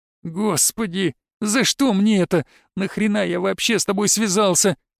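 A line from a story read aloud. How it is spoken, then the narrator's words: Whining. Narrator (Russian): заскулил Воробей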